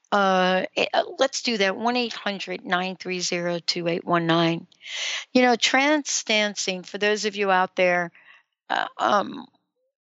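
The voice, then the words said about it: New York accent. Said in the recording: “that is my New York accent”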